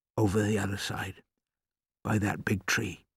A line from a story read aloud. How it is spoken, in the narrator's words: my father whispered